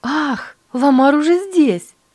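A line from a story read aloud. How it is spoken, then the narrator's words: Exclaimed. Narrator (Russian): воскликнула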